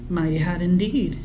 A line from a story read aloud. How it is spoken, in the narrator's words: Emmeline agreed evenly